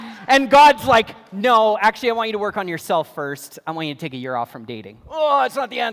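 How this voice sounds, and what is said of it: Usual voice. Nothing is said of it.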